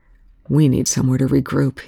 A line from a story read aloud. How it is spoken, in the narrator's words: Young said